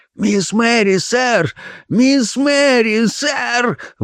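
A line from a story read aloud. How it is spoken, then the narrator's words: Breathless. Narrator (Russian): выдохнул он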